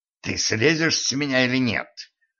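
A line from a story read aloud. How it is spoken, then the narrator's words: Angry muffled hoarse rasp. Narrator (Russian): сердито прохрипела из-под него Кэтран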